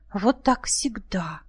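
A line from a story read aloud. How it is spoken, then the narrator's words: Quiet speech. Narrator (Russian): тихо говорила Зоя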